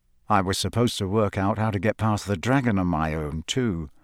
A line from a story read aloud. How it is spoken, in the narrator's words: Harry muttered, so only Hermione could hear him